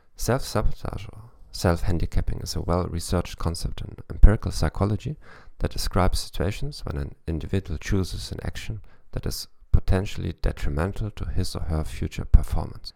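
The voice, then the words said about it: German-accented English. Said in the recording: “in English with a German accent.”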